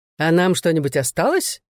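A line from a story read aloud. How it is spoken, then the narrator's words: Cheerful question. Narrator (Russian): весело поинтересовался Пол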